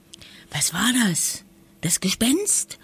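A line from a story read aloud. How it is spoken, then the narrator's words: Whispering. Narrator (German): wisperte Lisa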